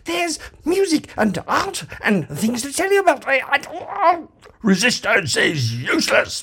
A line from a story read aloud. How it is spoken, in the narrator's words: bellowed the guard